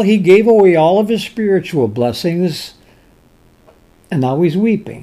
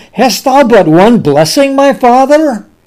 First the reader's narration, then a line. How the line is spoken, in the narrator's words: Esau lifted up his voice and wept